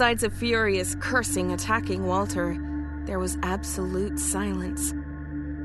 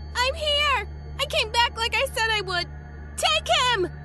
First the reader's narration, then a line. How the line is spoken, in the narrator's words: she yelled from under the cover of her forearms